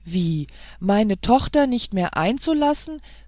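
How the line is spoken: Angry exclamation. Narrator (German): rief die Königin, und Zorn erhöhte die Röte ihrer Wangen

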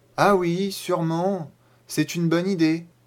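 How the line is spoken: Uncertain voice. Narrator (French): dit Nico d'une voix incertaine

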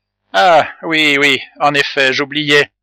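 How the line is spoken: Muffled low voice. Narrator (French): dit Jacques Ferrand d'une voix sourde

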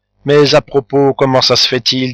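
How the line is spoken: Plain. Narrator (French): dit Anastasie

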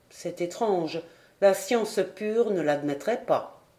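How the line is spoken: Murmured. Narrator (French): murmura Paganel

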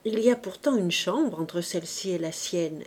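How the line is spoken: Gentle explaining. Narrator (French): expliqua doucement Trublot

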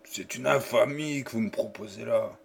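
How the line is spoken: Murmured. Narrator (French): murmura-t-il

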